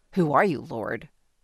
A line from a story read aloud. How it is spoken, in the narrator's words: Saul asked